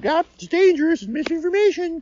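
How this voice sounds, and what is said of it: Imitates another person's voice. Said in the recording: “imitating my voice? ... I did a pretty good job”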